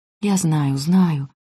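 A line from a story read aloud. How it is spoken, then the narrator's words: Whispered. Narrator (Russian): прошептал Нико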